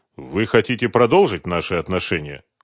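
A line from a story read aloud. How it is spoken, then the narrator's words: Cold inquiry. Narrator (Russian): холодно поинтересовался Дронго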